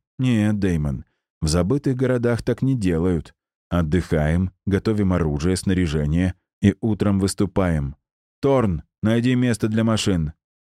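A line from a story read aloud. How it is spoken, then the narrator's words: Sighing. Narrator (Russian): Я вздохнул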